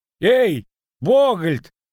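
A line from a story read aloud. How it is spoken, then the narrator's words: Shouted. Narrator (Russian): крикнул Нищука с воза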